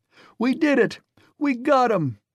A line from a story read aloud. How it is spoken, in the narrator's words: they cried